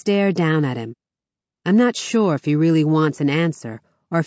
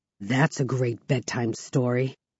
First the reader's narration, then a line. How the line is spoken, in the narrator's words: he scoffs